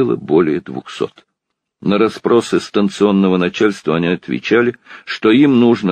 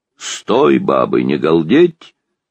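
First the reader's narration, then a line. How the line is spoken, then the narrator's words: Booming bass shout. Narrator (Russian): крикнул, покрывая сразу своим басом их голоса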